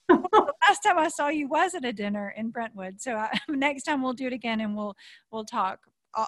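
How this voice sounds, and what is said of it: Southern accent. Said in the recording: “I hear a Southern accent.”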